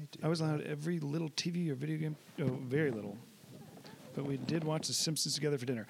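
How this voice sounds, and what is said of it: Hoarse, strained voice. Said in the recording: “I've been losing my voice lately, having to clear it a lot.”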